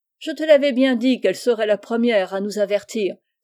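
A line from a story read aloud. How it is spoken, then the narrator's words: Exclaimed. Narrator (French): s'écria Vif-Argent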